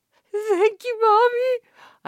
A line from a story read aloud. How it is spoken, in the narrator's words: I sobbed